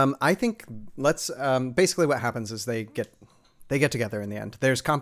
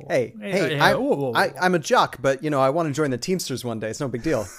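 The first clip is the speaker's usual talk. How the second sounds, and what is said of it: Put-on New York accent. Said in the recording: “What is this New York accent, man?”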